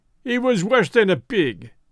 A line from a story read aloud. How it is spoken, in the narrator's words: he cried